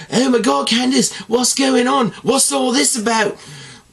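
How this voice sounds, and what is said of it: Bad put-on accent imitating Indy Hartwell. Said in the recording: “Terrible accent, I'm aware”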